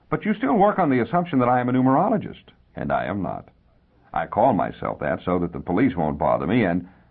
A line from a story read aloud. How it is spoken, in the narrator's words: the little man chuckled dryly